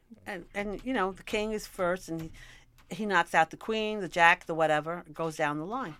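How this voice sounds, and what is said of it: Bronx New York accent. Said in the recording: “I was brought up in the Bronx ... they have an accent. I have an accent ... you no longer have a New York accent ... I'm here to tell you you're wrong.”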